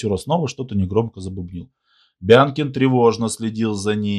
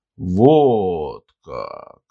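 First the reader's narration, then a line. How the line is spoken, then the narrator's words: Drawling. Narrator (Russian): протянул тот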